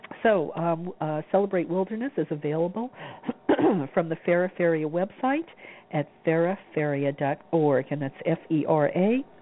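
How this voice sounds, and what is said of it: Worn-out, hoarse voice. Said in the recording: “my voice is just about run out. I'm starting to get a cold”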